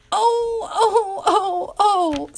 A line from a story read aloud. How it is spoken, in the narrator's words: sobbed Mrs